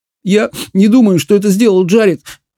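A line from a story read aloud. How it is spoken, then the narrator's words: Sobbing speech. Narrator (Russian): всхлипывая, проговорил Саймон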